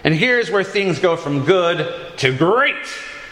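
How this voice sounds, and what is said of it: Tony the Tiger impression. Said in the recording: “my Tony the Tiger impersonation. It wasn't so great, was it?”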